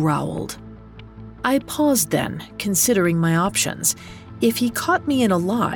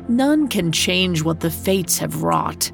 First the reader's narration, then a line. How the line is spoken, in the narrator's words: he rumbled